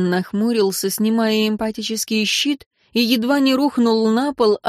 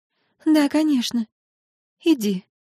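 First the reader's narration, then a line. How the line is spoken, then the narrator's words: Sad, sighing. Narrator (Russian): Виктория, еще раз вздохнув, грустно сказала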